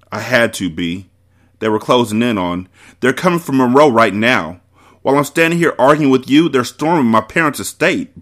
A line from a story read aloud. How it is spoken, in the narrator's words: Bree shouted in disbelief